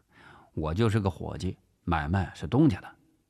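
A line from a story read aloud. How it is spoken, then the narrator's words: Flat, calm reply. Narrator (Chinese): 陈发斌淡淡的回答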